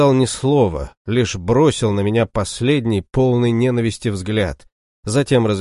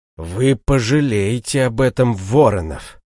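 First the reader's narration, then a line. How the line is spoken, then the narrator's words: Hissing threat. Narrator (Russian): прошипел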